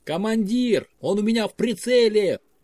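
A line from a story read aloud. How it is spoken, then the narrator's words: Shouted. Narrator (Russian): выкрикнул Андрей Лемур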